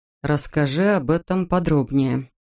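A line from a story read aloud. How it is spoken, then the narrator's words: Very calm request. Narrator (Russian): очень спокойно попросил тот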